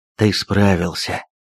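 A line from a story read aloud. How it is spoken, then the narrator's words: Whispered. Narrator (Russian): прошептал мой отморозок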